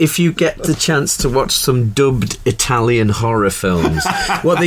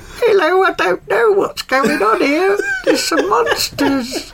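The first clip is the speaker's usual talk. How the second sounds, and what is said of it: Adult man doing a little boy's voice. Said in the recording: “a grown adult imitating a child ... clearly a bloke doing a little boy's voice”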